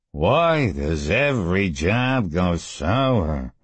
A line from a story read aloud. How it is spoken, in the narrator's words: Mort asked morosely, his voice more nasal than usual because of his injured nose